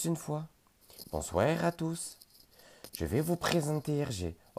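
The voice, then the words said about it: Bad put-on Belgian accent. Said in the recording (French): “T'as pas osé imiter l'accent belge. Oh mon Dieu, que c'était moche.”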